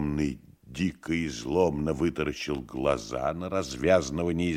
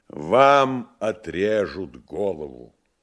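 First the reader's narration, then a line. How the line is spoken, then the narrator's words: Loud joyful announcement. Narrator (Russian): И громко и радостно объявил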